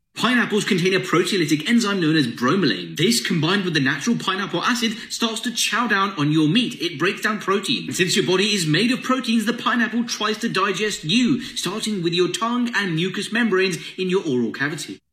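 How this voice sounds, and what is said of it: English accent. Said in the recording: “English accent.”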